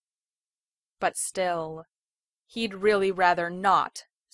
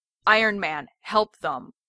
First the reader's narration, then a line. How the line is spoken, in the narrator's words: Steve barks